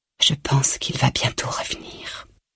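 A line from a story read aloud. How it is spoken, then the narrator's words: Soft whisper. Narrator (French): souffle-t-elle tout bas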